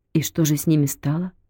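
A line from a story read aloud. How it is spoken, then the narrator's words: Quiet question. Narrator (Russian): тихо спросила Зина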